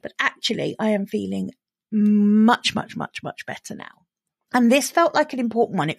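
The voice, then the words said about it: Rough, unwell-sounding voice. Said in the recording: “I probably sound as if I haven't given myself quite long enough because my voice sounds a bit grotty”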